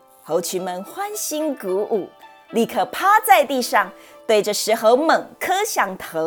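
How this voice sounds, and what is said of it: Usual voice. Nothing is said of it.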